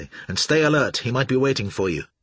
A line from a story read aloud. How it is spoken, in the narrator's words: Joshua said urgently